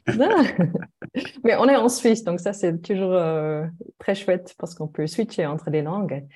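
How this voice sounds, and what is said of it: Slight German accent in French. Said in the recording (French): “Je suis allemande, comme on peut-être on l'entend avec un petit accent. ... Très peu.”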